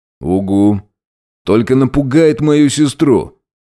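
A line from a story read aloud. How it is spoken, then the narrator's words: Grumbling. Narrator (Russian): проворчал Горностай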